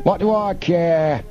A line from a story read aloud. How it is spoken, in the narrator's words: Snapman shouted